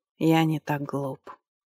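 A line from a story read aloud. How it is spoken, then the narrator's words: Calm reply from a lord. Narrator (Russian): спокойно ответил владыка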